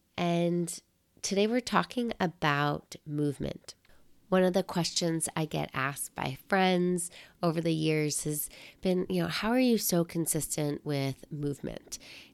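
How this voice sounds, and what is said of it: Nasal, raspy voice from a cold. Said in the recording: “I am still nursing a cold. So this will be a slightly more nasaled, raspy recording.”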